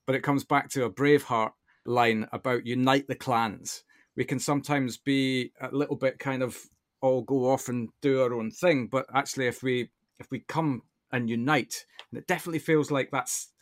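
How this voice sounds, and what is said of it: Speaker's own regional accent. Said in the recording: “don't let my accent put you off when I say this”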